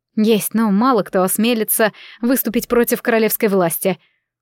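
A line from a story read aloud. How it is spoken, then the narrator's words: Snorting. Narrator (Russian): Максимилиан хмыкнул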